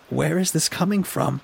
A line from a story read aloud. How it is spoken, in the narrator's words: He actually laughed at that one